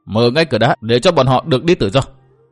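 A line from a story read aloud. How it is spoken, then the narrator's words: Cold-smiling command. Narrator (Vietnamese): người đàn bà cười nhạt rồi ra lệnh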